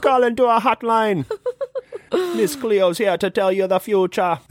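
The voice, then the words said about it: Put-on Jamaican accent. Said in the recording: “Miss Cleo style ... That's how I got my Jamaican accent down pretty good.”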